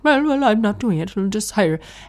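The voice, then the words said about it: Imitated Irish accent of father. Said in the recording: “if you think that's a bad Irish accent, it's not a bad Irish accent. It's my dad's Irish accent after he's lived in Canada since he was 8”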